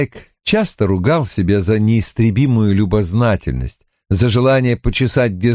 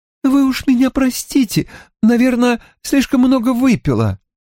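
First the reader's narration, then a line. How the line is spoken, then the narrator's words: Sobbing mumble. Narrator (Russian): Та всхлипнула и забормотала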